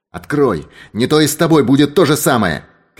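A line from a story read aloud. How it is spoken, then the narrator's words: Shouting from a cage. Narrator (Russian): крикнул ей из клетки сыщик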